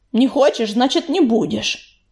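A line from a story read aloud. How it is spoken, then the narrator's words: Familiar bass grumble. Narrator (Russian): проворчал у нее над духом знакомый басовитый голос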